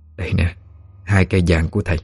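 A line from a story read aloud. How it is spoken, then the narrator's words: Gentle, old woman. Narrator (Vietnamese): Bà nhẹ nhàng nói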